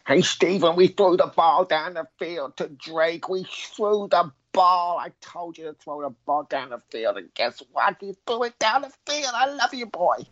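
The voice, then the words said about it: Imitated voice of another person. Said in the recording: “your best Mrs. Ross voice”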